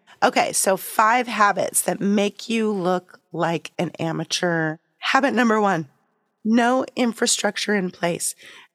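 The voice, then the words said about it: Voice affected by illness. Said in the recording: “sorry for my voice. I'm just getting over COVID.”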